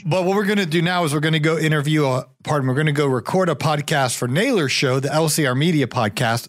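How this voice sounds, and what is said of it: Hoarse, tired voice. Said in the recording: “I've been podcasting all day. That's why I'm losing my voice”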